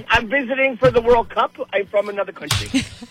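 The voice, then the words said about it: Weak, slipping put-on foreign accent. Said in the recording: “You're losing your accent.”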